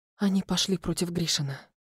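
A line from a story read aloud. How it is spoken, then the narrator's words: Whisper. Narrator (Russian): прошептала я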